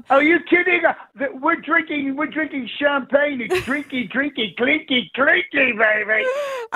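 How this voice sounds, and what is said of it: Austin Powers impression. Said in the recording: “the international man of mystery himself, Austin Powers”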